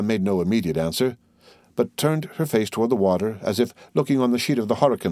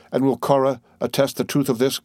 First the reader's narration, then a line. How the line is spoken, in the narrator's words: cried Duncan, suffering the cloud to be chased from his countenance by a smile of open pleasure